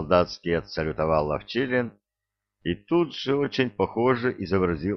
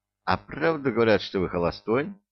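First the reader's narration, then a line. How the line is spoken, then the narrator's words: Plain question. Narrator (Russian): спросила она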